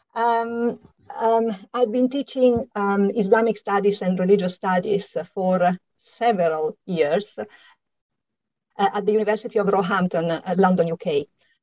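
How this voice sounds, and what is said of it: Slight Italian accent. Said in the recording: “as you can hear from my slight accent, I'm Italian”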